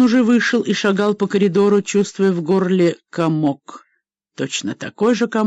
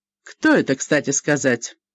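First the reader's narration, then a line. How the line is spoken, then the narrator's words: Irritated question. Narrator (Russian): Стивен раздраженно спросил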